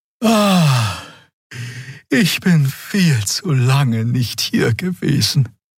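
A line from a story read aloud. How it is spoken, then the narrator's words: Sighing. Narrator (German): seufzte Xea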